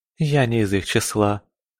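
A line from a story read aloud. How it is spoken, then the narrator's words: Laughing. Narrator (Russian): рассмеялась Лоррейна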